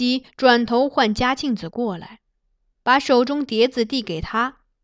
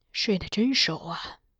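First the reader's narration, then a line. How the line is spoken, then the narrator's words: Sighing, to himself. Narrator (Chinese): 金上叹了叹气，似自言自语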